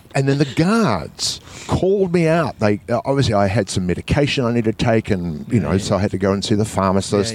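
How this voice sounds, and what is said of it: New Zealand accent. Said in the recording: “I'm ... from New Zealand ... your accent is just so funny”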